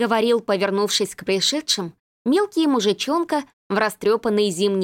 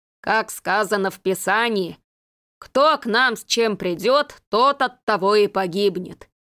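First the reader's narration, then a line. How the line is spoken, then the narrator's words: Booming deep bass, potbellied tramp. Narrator (Russian): прогудел густым басом пузатый бомж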